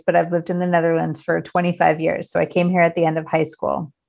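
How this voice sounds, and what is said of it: American English accent. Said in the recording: “I also am American, as you can hear from my voice”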